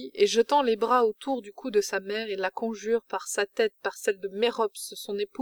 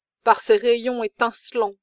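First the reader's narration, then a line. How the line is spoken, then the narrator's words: Female cry. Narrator (French): s'écrie-t-elle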